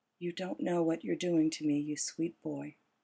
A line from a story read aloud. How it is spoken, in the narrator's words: Esme smiles at me and whispers